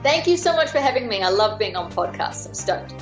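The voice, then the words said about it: Hybrid New Zealand-Australian accent. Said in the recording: “your awesome accent ... the accent's gotten to be a bit of a hybrid. Half my family is Kiwi, half are Australian ... the accent sort of rolls around from time to time”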